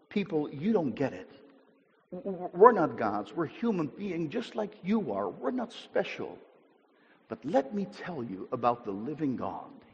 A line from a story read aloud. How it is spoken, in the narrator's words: he says